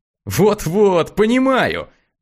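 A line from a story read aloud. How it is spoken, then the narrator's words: Laughing. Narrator (Russian): рассмеялся Макс Сашне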